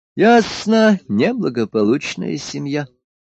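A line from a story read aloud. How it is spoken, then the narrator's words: Sigh. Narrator (Russian): вздохнул император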